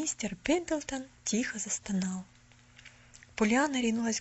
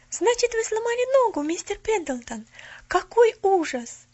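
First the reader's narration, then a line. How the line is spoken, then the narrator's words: Girl's sympathetic exclamation. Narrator (Russian): с сочувствием воскликнула девочка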